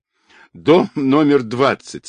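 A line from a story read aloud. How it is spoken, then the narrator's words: Laughing. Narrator (Russian): смеясь она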